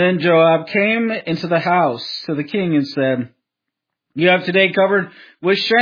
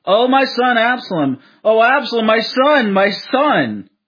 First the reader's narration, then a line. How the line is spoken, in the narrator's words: the king cried with a loud voice